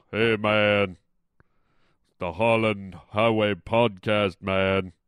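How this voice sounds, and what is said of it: Deep giant character voice. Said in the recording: “I do my voice as a giant... Like Michael Clark Duncan from the Green Mile”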